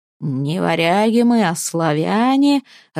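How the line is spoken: Growled, pounding table. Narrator (Russian): рычал, стуча по столу кулаком

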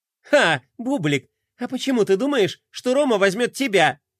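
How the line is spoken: Mocking snort. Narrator (Russian): хмыкнула Глория

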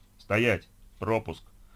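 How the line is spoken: Deep metallic booming bass. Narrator (Russian): Густым металлическим басом прогудел голос из амбразуры

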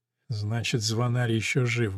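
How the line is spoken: Muttering. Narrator (Russian): бормочет

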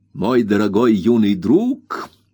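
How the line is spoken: Exclamation. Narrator (Russian): воскликнул мистер Микавер

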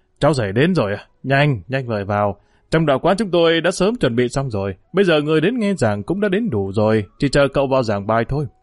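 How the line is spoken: Hearty laughing. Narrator (Vietnamese): Tào Dật liền cười lớn nói

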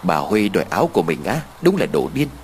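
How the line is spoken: Sudden muttering. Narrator (Vietnamese): Đột nhiên cô lẩm bẩm

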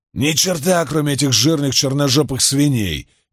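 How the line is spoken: Shouted reply. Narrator (Russian): крикнул в ответ Джейб

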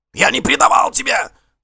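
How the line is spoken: Yelling. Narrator (Russian): завопил Гринкель

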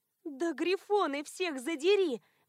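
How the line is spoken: Howled. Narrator (Russian): взвыла

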